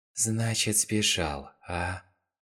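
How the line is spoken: Muttered. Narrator (Russian): Пробормотал он

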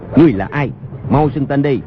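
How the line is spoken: Shouting. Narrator (Vietnamese): bèn quát

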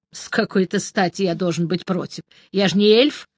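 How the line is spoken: Snorting. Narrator (Russian): фыркнул я

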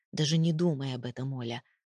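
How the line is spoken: Voice breaking into growl. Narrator (Russian): Голос сорвался на рычание

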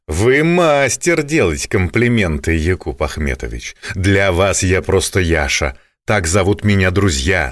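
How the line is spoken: Plain. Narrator (Russian): сказал Акчурин

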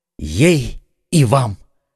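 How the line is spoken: Exclamation. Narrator (Russian): воскликнул Д'Артаньян

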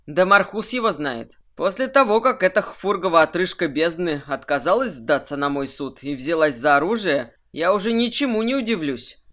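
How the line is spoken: Snorting scoff. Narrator (Russian): хмыкнул Кирсан

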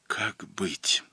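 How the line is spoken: Whisper, woman alone. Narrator (Russian): шептала она, оставшись одна

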